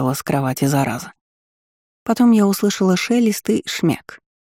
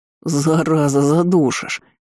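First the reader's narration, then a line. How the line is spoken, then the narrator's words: Wheezing rasp. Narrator (Russian): Просипел Ирден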